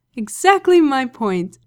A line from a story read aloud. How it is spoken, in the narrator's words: Aziraphale laughed